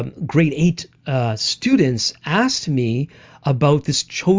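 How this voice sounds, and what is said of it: Usual voice. Nothing is said of it.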